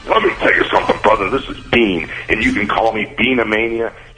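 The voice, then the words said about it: Hulk Hogan impression. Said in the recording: “That's Hulk doing his Bean impression.”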